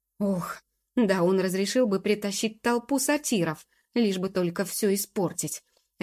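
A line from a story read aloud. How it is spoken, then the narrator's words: Upset barking. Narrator (Russian): рявкнул господин Заразиха, огорченный ровно настолько же, насколько еще недавно был доволен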